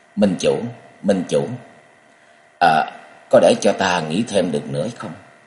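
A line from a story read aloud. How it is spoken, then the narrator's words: Hesitant, soft voice. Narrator (Vietnamese): Chàng ngập ngừng trong giây phút rồi khẽ giọng nói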